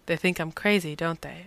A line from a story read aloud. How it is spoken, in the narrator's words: asked